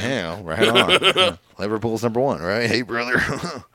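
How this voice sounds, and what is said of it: Imitates another person's voice. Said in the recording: “the very, very good impersonation of Zach Gibson.”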